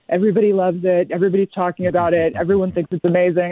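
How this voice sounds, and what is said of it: Fairly good Donald Trump impression. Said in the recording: “That was a fairly good Trump impression”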